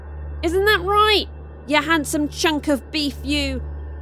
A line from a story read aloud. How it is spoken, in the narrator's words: Zuri shouted towards Austin